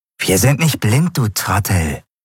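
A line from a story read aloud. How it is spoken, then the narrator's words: Hissed angrily. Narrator (German): fauchte eine andere Stimme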